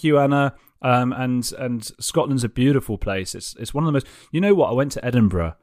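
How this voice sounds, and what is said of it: Usual voice. Nothing is said of it.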